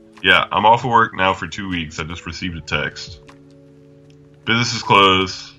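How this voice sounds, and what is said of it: Noticeably deeper voice. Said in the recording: “did your voice get deeper? ... Your voice got deeper.”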